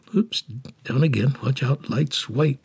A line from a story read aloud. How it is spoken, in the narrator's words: she mumbled to herself